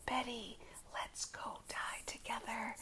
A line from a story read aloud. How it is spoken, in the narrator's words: she whispered